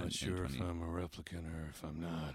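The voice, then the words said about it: Harrison Ford impression. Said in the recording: “It's not a bad impression. ... That's pretty good. ... I've done Harrison Ford impressions before.”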